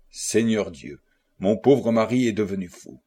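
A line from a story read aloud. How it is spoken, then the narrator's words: Faint, muffled murmur. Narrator (French): la jeune femme parut près de s'évanouir, et cachant sa tête entre ses mains, elle murmura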